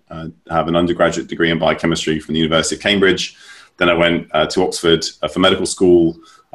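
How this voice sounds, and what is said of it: British accent. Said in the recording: “as you can probably tell, I was raised in the United Kingdom, mainly ... wasn't there for long enough for the accent to stick”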